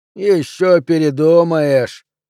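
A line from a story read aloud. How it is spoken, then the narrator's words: Hoarse drink-worn voice. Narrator (Russian): пообещал мужичок испитым голосом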